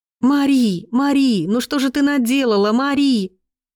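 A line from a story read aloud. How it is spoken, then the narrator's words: Loud sobbing. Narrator (Russian): громкие рыдания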